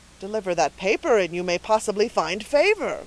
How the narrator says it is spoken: cried Dunwoodie, expecting a discovery of importance to the cause

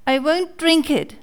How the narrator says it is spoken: cried Pinocchio, bursting out crying

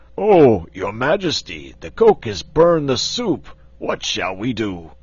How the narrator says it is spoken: one of the giant servants exclaimed

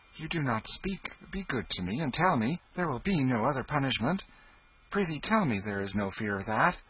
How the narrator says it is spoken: He said eagerly

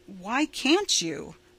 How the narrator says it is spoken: Roy asked more calmly

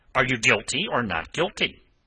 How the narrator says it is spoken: snapped this peppery gentleman

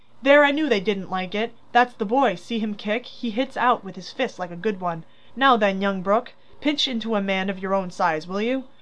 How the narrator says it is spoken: cried Lorry, delighted

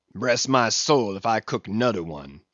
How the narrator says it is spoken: he growled, angrily

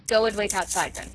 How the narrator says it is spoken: said Chauvelin

